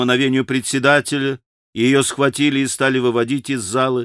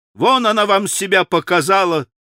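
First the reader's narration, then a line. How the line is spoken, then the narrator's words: Furious shout. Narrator (Russian): прокричала, сотрясаясь от злобы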